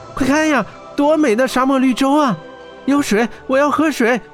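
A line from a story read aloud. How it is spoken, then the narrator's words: Amazed cry. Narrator (Chinese): 小爱惊奇地叫起来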